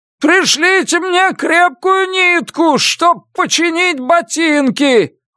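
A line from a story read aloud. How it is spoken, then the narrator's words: Yelling. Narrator (Russian): вопит капрал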